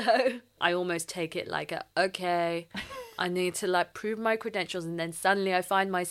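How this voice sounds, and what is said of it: Usual voice. Nothing is said of it.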